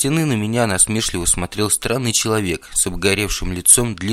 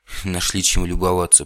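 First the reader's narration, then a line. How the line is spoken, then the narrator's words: Grumbling reply. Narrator (Russian): пробурчал в ответ Наив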